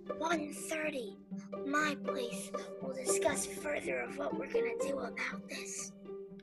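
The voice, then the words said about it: Whispering. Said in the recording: “Why are we whispering? ... I think for dramatic effect.”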